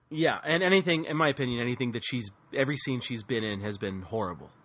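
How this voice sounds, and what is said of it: Usual voice. Nothing is said of it.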